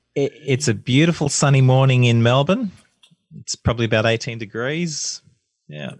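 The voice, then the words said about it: Australian accent. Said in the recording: “getting an Australian one is good”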